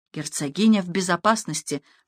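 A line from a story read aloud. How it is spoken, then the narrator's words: Loyal servant whispering. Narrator (Russian): прошептал верный слуга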